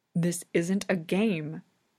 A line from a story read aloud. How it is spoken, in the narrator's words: he hisses